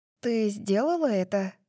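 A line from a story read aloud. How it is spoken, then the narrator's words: Breathy, muffled behind hand. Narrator (Russian): Дарси выдохнула, пряча слова за ладонью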